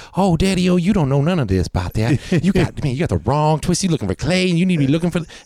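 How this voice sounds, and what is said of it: Cajun accent character impression. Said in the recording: “I was doing a Cajun. I was doing him. ... he sounds like he's doing blackface. But if you know, like, the Cajun people, that's how they all speak.”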